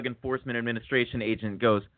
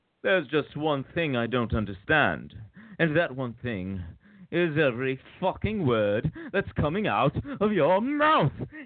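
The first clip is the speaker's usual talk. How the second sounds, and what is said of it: Put-on accent, movie-like delivery. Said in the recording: “the accent, the delivery. I mean, I thought it was watching a movie or hearing a movie.”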